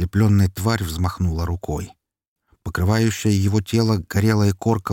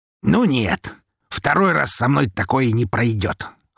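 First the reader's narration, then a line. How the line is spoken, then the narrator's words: Smirking grunt. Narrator (Russian): хмыкнул Константин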